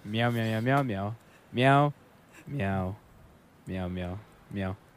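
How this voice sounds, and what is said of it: Imitates a cat meowing. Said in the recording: “do an impression of a cat for me ... tell me all about your day, but only as a cat”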